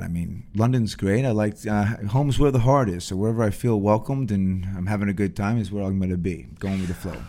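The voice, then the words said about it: Put-on messy radio voice. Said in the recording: “What is this voice that you kind of put on? ... why do you make it all messy? ... radio voice”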